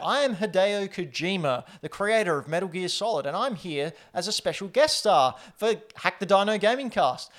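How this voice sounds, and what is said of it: Australian accent. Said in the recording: “Your Australian accent's spot on, too.”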